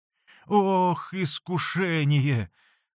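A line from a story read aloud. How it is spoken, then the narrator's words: Sigh. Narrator (Russian): вздохнул Василий Борисович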